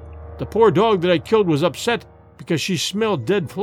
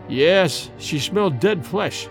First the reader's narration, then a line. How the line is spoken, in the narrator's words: replied Dorda gloomily